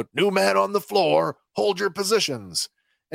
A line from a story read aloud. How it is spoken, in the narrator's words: Kino shouts out